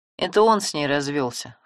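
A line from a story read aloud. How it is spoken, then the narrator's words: Smirking snort. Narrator (Russian): хмыкнул Семен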